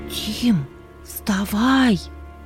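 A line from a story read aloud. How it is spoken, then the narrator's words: Sister's loud whisper. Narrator (Russian): Громким шепотом будила брата сестра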